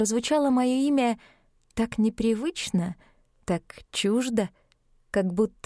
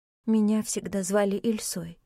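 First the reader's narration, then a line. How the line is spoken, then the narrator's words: Quiet. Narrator (Russian): тихо сказала я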